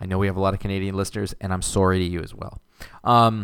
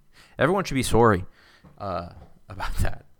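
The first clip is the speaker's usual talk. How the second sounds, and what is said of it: Put-on Canadian accent. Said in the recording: “That's my that's my Canadian accent. That's as good as I can do.”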